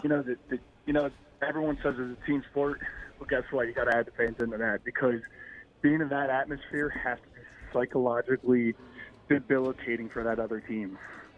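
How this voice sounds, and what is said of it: Hoarse, strained voice. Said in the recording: “if you can't tell, I lost my voice. I was at that game.”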